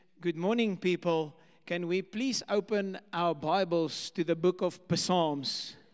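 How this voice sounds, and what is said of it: Put-on Afrikaans accent. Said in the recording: “I just love an Afrikaans accent.”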